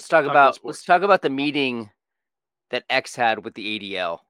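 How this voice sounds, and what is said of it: Usual voice. Nothing is said of it.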